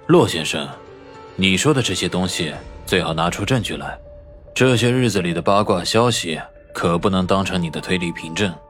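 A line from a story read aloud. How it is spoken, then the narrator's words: Deep, grave voice. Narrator (Chinese): 萧雨沉声道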